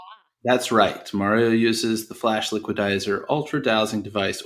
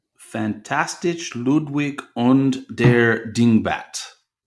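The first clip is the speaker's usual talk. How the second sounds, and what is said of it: Fake German accent. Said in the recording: “Pardon my fake German accent”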